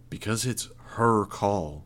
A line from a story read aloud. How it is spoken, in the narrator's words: I said, my voice firm